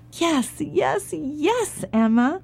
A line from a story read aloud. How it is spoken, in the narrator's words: cried the farmer, the farmer's wife, and the farmer's children